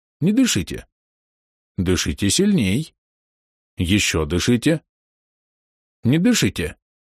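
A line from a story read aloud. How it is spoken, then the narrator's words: Gentle but insistent demand. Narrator (Russian): он также ласково и настойчиво требует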